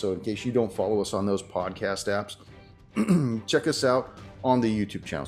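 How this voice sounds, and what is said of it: Slightly hoarse, froggy voice. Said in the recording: “my voice is getting a little frog.”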